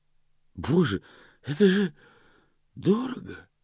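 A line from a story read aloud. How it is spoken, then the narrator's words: Breathless exhale. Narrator (Russian): выдохнул он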